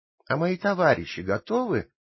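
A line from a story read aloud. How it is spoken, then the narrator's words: Plain. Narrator (Russian): спросил Пиноккио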